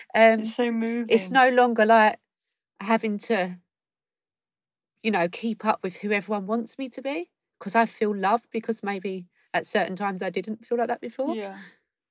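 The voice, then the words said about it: Tearful, emotional voice. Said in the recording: “God, I'm feeling a bit emotional. ... bloody hell. Why am I crying?”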